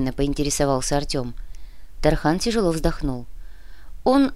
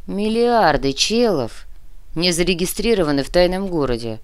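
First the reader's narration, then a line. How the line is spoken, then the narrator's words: Grumble. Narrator (Russian): проворчал Шас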